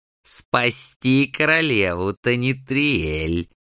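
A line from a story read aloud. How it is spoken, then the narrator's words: Spiteful, vicious. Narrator (Russian): Злобно закончил он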